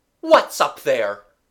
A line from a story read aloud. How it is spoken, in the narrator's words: cried suddenly a new voice, a voice with all its consonants comforting, clean-cut, and ringing